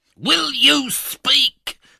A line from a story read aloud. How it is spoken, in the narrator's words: thundered the Jew